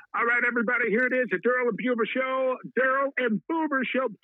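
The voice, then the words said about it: Put-on announcer character voice. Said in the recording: “In my Hitman voice”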